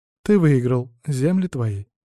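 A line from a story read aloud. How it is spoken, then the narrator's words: Sighing. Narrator (Russian): вздохнула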